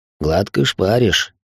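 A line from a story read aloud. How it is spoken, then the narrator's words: Amused snort. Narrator (Russian): хмыкнул дядя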